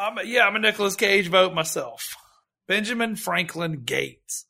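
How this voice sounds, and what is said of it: Usual voice. Nothing is said of it.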